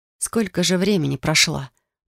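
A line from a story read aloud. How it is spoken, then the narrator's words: Hoarse rasp. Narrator (Russian): прохрипела я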